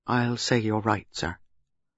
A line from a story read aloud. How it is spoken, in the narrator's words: Superintendent Harper said very quietly